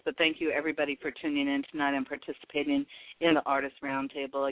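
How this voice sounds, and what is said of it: Hoarse, strained voice. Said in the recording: “I think I'm losing my voice or having allergy attacks, and I had this cough going on... I apologize for my cough and my voice”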